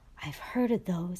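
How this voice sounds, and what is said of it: Hushed voice. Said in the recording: “in a hushed voice”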